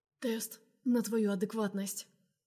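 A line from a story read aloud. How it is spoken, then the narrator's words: Ragged hoarse rasp. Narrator (Russian): хрипит рвано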